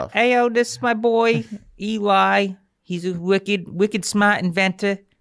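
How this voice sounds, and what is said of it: Put-on regional accent. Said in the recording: “I fucking hate that accent.”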